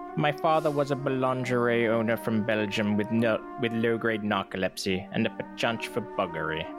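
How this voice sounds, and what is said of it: Dr. Evil impression. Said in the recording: “Dr. Evil voice ... Dr. Evil accent it is ... channel Lorne Michaels”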